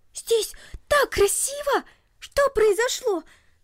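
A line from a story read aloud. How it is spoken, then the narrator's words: Delighted girl exclaiming. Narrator (Russian): воскликнула в восторге девочка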